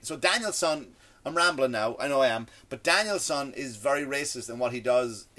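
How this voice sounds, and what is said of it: Speaks with a foreign accent. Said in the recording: “I've traveled all over the world. I have an accent.”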